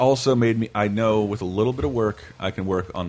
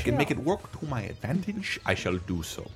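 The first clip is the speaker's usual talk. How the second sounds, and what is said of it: Christoph Waltz impression. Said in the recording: “the perfect Christopher Waltz impression”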